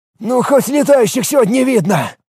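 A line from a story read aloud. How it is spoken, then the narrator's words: Exhaled remark, defender. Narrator (Russian): выдохнул один из защитников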